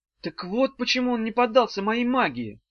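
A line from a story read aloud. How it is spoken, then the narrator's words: Exclaimed. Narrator (Russian): воскликнула Ната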